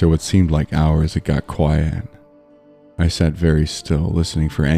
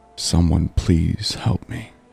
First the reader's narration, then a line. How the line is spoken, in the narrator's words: As I rocked back and forth, I whispered over and over